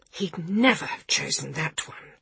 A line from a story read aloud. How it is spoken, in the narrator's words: whispered Gavin